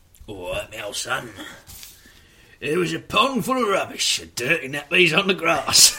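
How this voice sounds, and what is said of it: Put-on Cockney accent. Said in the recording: “I think you should do this one at the bottom in the Cockney accent.”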